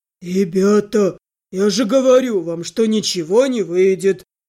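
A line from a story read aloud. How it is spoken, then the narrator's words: Gloomy grumbling, big man. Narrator (Russian): Мрачно пробурчал здоровяк с пола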